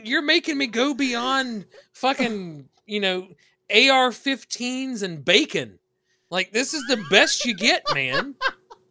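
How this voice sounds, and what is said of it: American Southern accent. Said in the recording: “you hear the accent. I'm from the South.”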